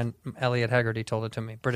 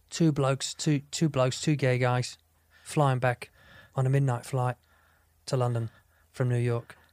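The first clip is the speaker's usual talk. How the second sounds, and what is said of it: Bad put-on British accent. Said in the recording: “British guy... I love doing it in his accent because it's bad”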